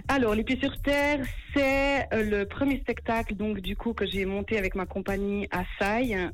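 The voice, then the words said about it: Swiss French Neuchâtel accent. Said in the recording (French): “Elle a un bon accent neuchâtelois d'ailleurs.”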